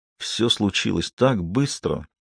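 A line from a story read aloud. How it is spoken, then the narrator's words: Muttered, head down. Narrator (Russian): пробормотал он, опустив голову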